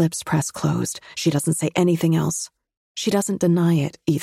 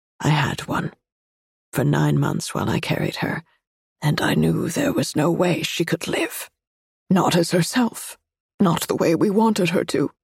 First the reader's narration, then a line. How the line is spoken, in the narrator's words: says quietly, in a low murmur